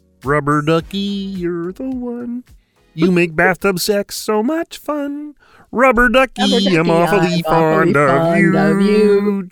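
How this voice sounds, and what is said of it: Imitates Ernie's muppet voice, singing. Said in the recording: “my Ernie impersonation”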